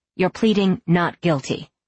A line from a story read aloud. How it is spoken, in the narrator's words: Scott said firmly